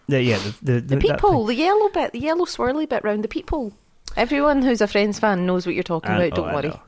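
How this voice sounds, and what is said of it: Glaswegian Scottish accent. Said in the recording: “I'm very aware that I sound very Glaswegian. ... I'm very aware of how Glaswegian I sound right now.”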